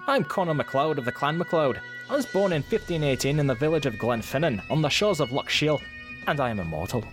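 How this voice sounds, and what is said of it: Scottish-style accent. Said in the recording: “Ooh, that was very good. ... that accent will be Yvonne approved. ... Though I was not trying to channel Mike Myers. ... you were channeling Sean Connery”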